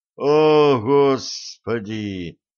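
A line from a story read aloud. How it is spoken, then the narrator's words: Moan. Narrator (Russian): простонал Блад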